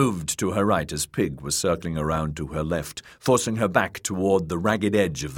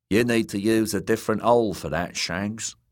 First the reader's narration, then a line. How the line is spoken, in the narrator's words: said Timian in his Dornish drawl